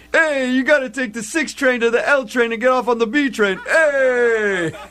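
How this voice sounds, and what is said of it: Put-on New York accent. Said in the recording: “you're still on the New York thing”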